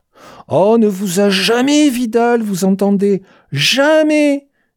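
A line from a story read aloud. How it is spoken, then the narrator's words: Screamed. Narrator (French): hurla-t-il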